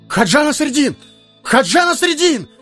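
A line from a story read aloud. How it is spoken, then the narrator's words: Crowd shouting. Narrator (Russian): закричали в толпе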